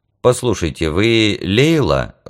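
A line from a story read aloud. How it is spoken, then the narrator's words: Timid. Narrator (Russian): робко начал я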